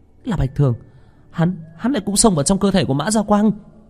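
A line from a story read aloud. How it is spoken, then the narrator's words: Blurted out exclamation. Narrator (Vietnamese): Hà Vũ Thần cũng buột miệng kêu lên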